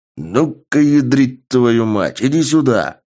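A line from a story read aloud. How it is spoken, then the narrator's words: Loud bass growl. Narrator (Russian): Громким басом прорычал я и сам удивился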